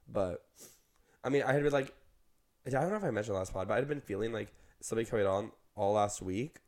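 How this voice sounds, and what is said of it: Sick, slightly weird-sounding voice. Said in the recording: “because of this sickness cold... I'm sick... my voice is a little weird sounding right now”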